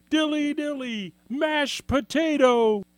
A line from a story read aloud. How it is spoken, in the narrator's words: these fools yelling